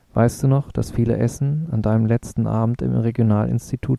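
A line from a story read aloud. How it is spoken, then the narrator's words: Plain. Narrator (German): fragte Takwa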